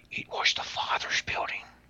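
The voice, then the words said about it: Whispered put-on Irish accent. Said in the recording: “I'm gonna do my best impersonation. I'm okay on voices. I'm not the best ... Now I'm gonna do one of an Irish guy ... Like he's whispering”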